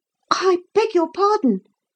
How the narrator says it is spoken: Philip gasped

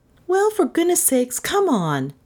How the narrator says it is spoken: said impatiently

